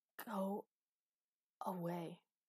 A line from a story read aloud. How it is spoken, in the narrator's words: gasped Master